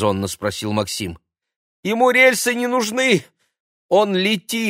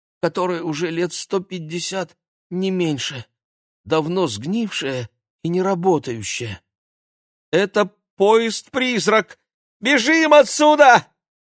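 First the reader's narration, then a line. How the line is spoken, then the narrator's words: Strangled gasp. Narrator (Russian): как-то сдавленно выдохнул Владик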